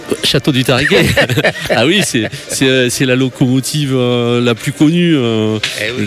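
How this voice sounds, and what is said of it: Southwestern French accent. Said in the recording (French): “mon accent du sud-ouest”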